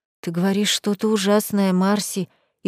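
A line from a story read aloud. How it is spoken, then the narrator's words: Frightened mumbling. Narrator (Russian): испуганно пробормотала я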